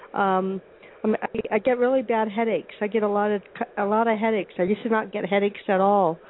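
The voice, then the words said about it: Congested, stuffy-nosed voice. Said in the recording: “I sound kind of congested”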